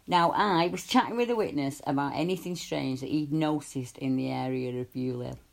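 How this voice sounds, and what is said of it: Thickening regional hometown accent. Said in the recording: “I'm sorry if my accent gets a bit thicker, but in my hometown”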